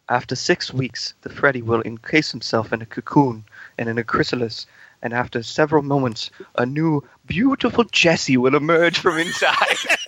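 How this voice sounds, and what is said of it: English nature-narrator accent, David Attenborough. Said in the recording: “I don't think I got the accent down quite right ... I didn't listen to any David Attenborough while I was doing this ... So I just did a shitty English accent. ... It's so good, though.”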